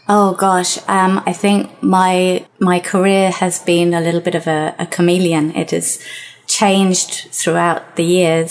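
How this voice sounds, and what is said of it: British accent. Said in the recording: “Your life didn't start in Portugal, if you probably picked up on that just based on the accent ... So you started life in the UK”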